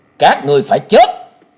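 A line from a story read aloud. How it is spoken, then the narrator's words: Icy shout. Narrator (Vietnamese): Tiếng quát lạnh như băng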